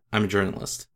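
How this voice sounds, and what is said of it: High-pitched, vocal fry, odd Brooklyn accent. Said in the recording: “my Eddie Brock impression ... It's very, like, high-pitched with a lot of vocal fry and, like, a weird Brooklyn accent on it. It's a weird voice. ... It sounds like he's always 1 second from being out of breath.”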